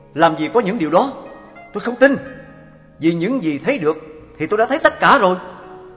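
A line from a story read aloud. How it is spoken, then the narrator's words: Loud. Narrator (Vietnamese): Anh ta bèn lớn tiếng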